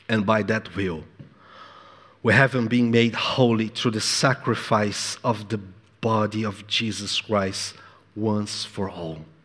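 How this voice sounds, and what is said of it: Speaks with a noticeable accent. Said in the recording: “Be patient with my accent.”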